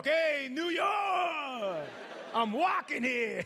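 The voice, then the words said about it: Exaggerated New York accent. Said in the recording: “someone will say your accent back to you right away ... hey, I'm from New York”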